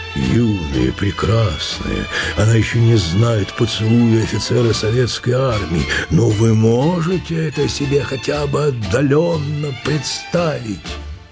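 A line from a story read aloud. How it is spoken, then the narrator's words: Sincere sigh. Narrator (Russian): Тетя Котя искренне вздохнула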